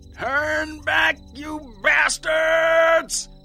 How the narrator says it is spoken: Tom shouted

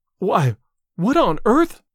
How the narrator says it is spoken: panted Miss Ives

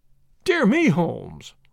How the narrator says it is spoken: I cried

